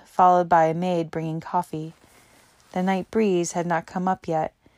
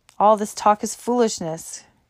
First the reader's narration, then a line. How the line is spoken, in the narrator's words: crossly exclaimed an elderly man named Bromley